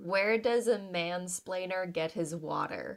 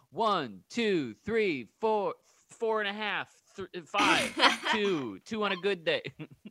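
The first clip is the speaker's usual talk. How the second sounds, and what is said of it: Imitates a misogynistic band leader. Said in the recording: “my impression of a misogynistic band leader”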